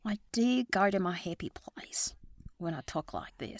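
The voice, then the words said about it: Australian accent. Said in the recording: “When you start smiling, you speak Australian.”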